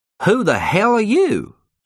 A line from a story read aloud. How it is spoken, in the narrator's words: she demanded in a Southern American accent